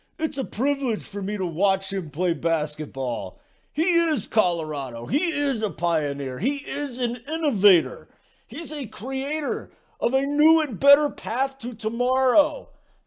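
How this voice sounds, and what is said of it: Bad, strained imitation of another person's voice. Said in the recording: “my Bill Walton impersonation ... this is so bad ... my Bill Walton is constipated impersonation”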